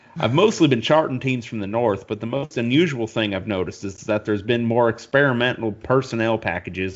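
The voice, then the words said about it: Put-on Southern accent. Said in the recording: “I'm going to do this in a southern accent”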